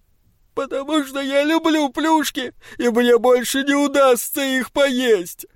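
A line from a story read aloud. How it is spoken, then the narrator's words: Loud sobbing reply. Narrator (Russian): ответил Стив, рыдая все громче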